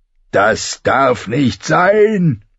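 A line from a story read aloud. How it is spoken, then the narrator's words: Roaring. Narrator (German): brüllte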